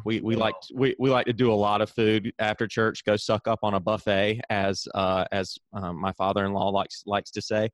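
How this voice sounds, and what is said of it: Southern American accent. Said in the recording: “in the South, where I'm from, as again, you can tell from my accent”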